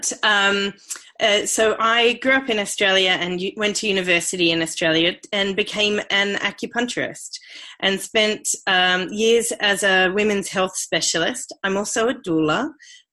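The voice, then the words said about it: Australian accent. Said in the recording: “I am Australian. You might be able to hear that from my accent”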